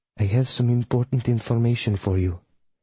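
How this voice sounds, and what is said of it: Put-on Polish accent. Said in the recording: “said a familiar Polish accent,”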